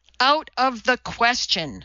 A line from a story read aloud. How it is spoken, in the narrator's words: thundered Donati